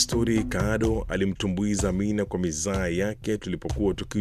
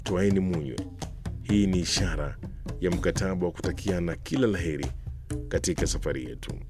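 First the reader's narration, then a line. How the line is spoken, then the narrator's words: Broad smiling toast. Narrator (Swahili): Kwa tabasamu nyingi alituletea mimi na Kado gilasi zilizojaa mvinyo na kusema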